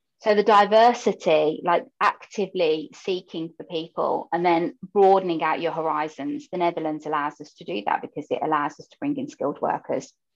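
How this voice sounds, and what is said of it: British Birmingham accent. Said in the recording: “you can hear from my voice that I'm from the UK and Birmingham specifically”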